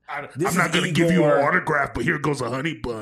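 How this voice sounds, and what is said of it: Imitates another person's voice. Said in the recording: “That was a really good impression ... Really good solid.”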